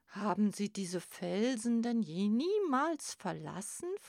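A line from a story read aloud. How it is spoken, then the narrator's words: Plain. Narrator (German): fragte er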